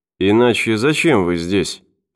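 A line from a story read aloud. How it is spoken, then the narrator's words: Muttered. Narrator (Russian): пробормотал врач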